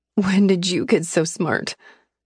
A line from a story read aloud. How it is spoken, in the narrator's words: I said, my voice cracking